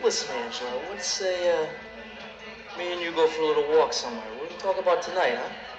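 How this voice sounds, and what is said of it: Thick New York accent. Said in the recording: “There's a thick New York accent there ... There are some really thick accents in this movie.”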